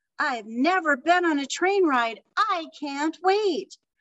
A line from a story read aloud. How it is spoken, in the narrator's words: Madison Moy exclaimed